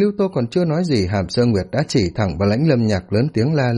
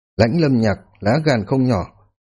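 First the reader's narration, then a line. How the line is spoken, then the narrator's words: Cold. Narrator (Vietnamese): lạnh lùng nói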